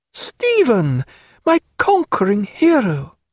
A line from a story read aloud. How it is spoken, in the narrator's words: cried Diana